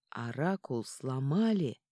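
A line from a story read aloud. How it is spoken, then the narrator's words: Hissing whisper. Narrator (Russian): свистящим шепотом сообщил Сильен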